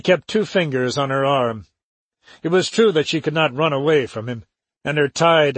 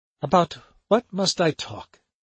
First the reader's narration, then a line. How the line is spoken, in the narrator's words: she asked him faintly